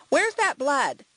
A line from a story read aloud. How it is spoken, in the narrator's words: she called out